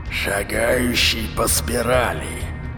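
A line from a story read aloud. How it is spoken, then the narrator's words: Hissing but deep voice. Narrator (Russian): поприветствовал он Сенку шипящим, но глубоким голосом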